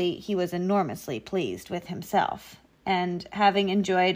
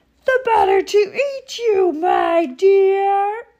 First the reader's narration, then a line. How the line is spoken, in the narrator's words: cried the wolf